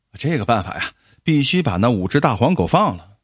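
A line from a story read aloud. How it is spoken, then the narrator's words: With a smile. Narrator (Chinese): 王站长笑了笑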